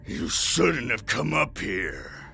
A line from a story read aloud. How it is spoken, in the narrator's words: he grunted